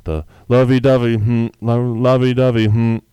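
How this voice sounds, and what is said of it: Imitates another person's voice. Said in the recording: “That's my Drake impression.”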